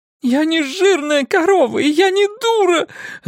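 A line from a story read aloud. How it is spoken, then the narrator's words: Sobbing. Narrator (Russian): разрыдалась актриса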